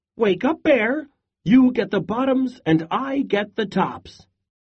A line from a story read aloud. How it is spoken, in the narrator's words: Hare called out